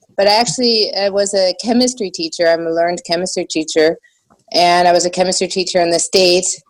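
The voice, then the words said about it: American English with slight German accent. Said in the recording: “I think you do. You sound a little bit German ... probably why I have a bit of an accent”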